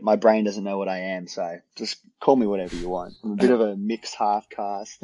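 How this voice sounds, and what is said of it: Australian accent with English traces. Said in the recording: “Is that an Australian accent? Is that an English accent? Is that a mix ... It's Australian, but I've got my mum's ... a little bit of English in your accent”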